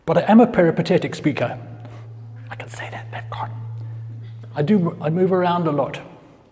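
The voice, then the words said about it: Southern African accent. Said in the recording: “as you might tell from my accent, I am Southern African”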